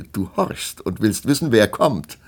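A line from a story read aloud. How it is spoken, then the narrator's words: Laughing. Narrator (German): lachte Melusine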